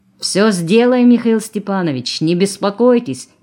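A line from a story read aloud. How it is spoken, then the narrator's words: Shouted. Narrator (Russian): крикнул Колосов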